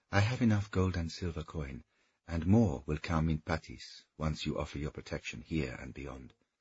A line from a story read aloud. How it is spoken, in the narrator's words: she said, her voice almost like a whisper from a lover